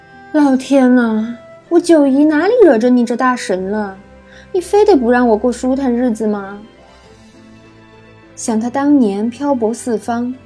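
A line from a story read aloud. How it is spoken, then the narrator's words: Sighing, anguished lament. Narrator (Chinese): 九姨 长叹一口气，于无声中仰天长啸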